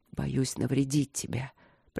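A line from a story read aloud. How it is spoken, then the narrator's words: Hoarse rasp. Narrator (Russian): прохрипел он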